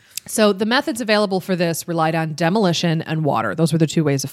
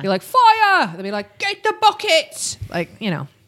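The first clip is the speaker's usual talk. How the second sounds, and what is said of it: Put-on London accent. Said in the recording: “That's my London accent.”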